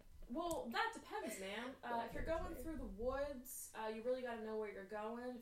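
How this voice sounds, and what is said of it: Subtle put-on Southern accent. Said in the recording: “Why are you southern? ... It yeah, was subtle southern.”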